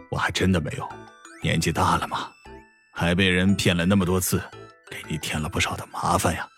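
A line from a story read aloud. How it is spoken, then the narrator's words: Heavy sigh. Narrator (Chinese): 史嘉诚重重的叹了口气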